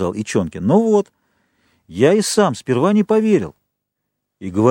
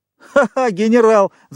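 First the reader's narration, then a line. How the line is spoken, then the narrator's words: Laughter from above. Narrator (Russian): засмеялись уже наверху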